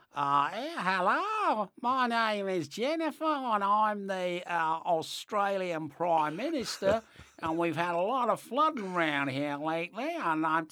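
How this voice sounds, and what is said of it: Put-on Australian woman's accent. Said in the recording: “you've got to do a woman's accent, you see, because she's a woman... No, she'd sound something like this.”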